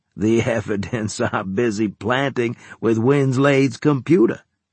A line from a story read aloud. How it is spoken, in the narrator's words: he said, laughing